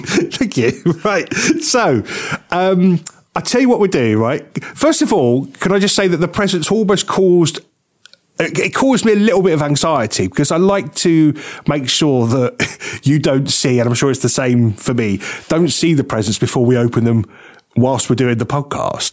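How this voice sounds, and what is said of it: Father Christmas character voice. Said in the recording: “getting the voice ready... to play Father Christmas... your better-than-usual accent. It's very good, that one.”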